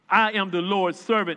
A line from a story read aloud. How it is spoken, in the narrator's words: Mary answered